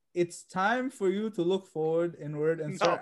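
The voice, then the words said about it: Cartoon character voice with accent. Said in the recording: “let's not do the accent ... You're just trying to do the Iroh voice”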